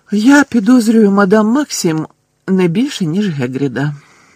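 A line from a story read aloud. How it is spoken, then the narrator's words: Calm. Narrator (Ukrainian): так само спокійно промовив Дамблдор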